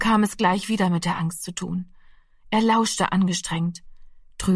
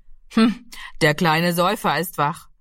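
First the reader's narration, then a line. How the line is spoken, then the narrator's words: Called out. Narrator (German): rief er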